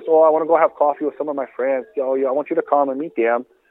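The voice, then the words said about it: Put-on Brazilian Portuguese accent. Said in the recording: “a spot-on impersonation ... you've got a decent Portuguese fake accent that you can slap on at any time”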